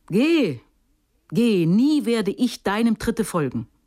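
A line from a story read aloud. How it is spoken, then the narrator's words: Calling after. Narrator (German): rief sie ihr nach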